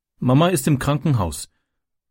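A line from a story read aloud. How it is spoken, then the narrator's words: Plain. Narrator (German): antwortete Francis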